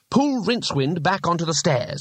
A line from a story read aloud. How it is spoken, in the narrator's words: he snapped